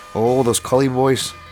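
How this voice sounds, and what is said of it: Bad put-on Irish accent. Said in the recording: “They sound like good Irish boys ... It's a terrible accent”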